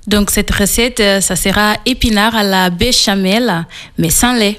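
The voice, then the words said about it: Slight Portuguese accent in French. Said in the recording (French): “on entend que vous avez un petit accent... Il vient du Portugal.”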